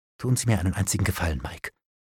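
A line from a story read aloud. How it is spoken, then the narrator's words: Whispering. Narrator (German): flüsterte ich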